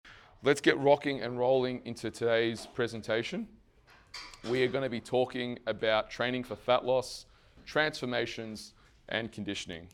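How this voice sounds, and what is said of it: Hoarse, strained voice. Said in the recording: “it does seem that I am losing my voice a little bit ... I was losing my voice then, and 3 days of yelling and screaming at you guys, I'm losing my voice now”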